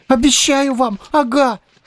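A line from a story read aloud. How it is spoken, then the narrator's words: Boy's joy-cracked shout. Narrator (Russian): Срывающимся от радости голосом прокричал ему вслед мальчишка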